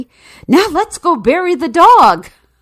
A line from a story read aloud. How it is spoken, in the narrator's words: said excitedly